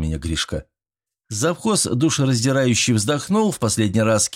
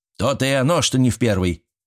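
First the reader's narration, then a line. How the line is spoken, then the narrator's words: Quartermaster's snort. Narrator (Russian): хмыкнул завхоз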